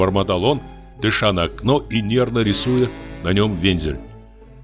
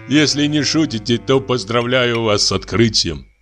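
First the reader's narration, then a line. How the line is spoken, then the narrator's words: Laughing. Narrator (Russian): засмеялся Камышев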